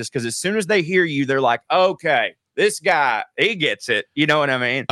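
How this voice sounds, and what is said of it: Southern American accent. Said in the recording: “a dude talking like me ... my accent ... a Southerner talk”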